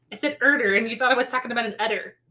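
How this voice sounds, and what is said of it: Odd accent, says order as erder. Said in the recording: “Why must you make fun of my accent?”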